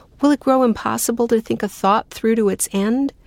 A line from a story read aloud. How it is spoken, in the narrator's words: gasps, adding in a panicky voice